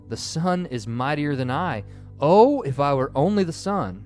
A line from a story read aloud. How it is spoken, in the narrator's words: He cried in his anger